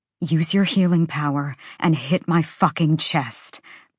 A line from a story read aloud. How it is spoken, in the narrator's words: Bryce snarled